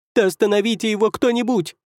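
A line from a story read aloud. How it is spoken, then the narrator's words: Shrill shout. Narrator (Russian): визгливо крикнул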